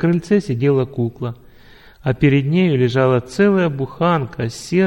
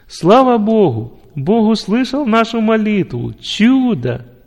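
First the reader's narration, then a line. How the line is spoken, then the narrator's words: Loud joyful shout. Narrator (Russian): громко закричать от радости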